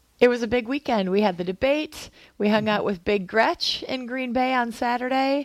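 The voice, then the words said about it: Tired, strained voice. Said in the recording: “my voice is a little tired from yelling defense a lot yesterday ... despite doing what you're doing to your voice”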